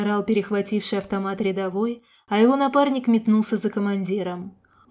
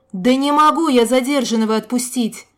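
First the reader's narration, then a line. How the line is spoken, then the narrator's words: Angry yelling. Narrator (Russian): в сердцах заорал на него командовавший дружинниками младший лейтенант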